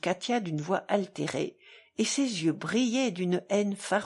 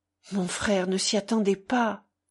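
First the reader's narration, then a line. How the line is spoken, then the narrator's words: Stammering. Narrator (French): balbutia Alyosha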